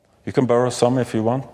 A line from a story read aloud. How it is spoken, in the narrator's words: said